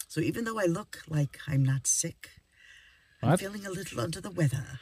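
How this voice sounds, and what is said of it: Slightly off, sick-sounding voice. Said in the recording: “My voice is a little off because Gary and I have been fighting off some kind of a cold”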